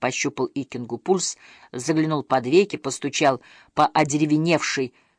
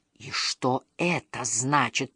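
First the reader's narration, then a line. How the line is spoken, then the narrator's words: Faint frightened whisper. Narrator (Russian): прошептал еле шевеля побелевшими губами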